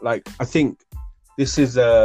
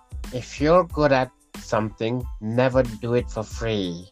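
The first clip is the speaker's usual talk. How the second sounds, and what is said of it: Imitates the Joker's voice. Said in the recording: “Good that accent, bro. Good Joker accent there, bro. Smashed it.”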